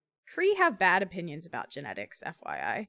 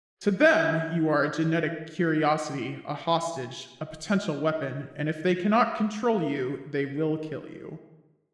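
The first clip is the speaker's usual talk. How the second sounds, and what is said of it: Character voice of Clark. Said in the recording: “I'll do a Clark voice.”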